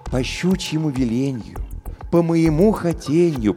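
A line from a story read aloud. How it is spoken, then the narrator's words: Cooing. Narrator (Russian): проворковал он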